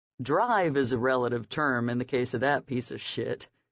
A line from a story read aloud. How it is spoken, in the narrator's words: Sed chuckled